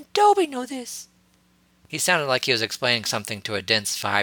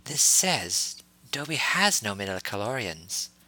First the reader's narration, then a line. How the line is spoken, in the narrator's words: Shock Tie said quietly